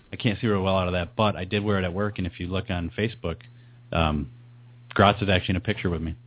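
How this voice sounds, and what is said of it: Hoarse voice, less deep than usual. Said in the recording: “I'm a little sick in my voice ... You're a little hoarse. ... I don't have that deep growl I usually have.”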